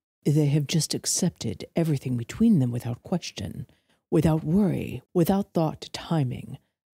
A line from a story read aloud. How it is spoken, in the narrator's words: Valerius murmured